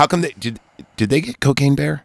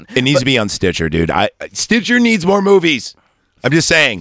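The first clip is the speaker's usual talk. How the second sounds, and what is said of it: Yelling loudly. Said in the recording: “I'm yelling it out to the guy.”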